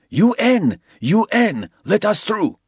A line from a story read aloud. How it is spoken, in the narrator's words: They were trying to get the attention of the Yanks, shouting